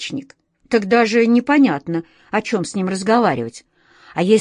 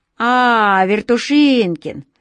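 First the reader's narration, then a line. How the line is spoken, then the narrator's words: Mocking, snide speech. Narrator (Russian): Насмешливо, даже ехидно, как показалось Васе, сказал Сашка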